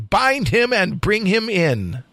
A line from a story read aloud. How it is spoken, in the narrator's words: from the tower above him cried Itare